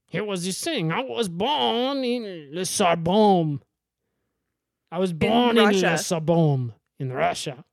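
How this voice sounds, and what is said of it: Russian character with French accent. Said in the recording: “playing a Russian ... he's got a French accent. Russian with a French accent.”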